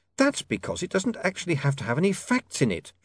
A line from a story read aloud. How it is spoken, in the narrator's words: she snapped